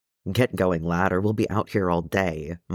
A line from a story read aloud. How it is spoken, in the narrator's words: muttered Nori, and his face was thunderously unhappy